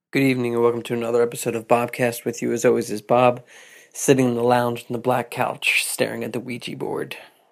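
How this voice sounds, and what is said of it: Congested, nasal sick voice. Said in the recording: “I don't know if you can tell from my voice, but I had a wicked sinus infection.”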